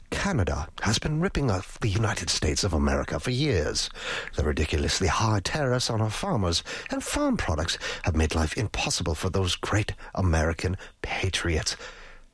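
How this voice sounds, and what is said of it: Regal British accent. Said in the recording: “do it in like a regal British accent”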